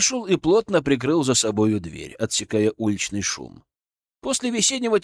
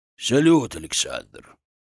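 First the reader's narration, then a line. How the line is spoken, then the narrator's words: Old man, solemn. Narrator (Russian): торжественно сказал старик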